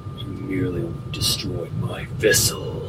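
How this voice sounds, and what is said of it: Deep character voice. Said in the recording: “you hear a deep voice.”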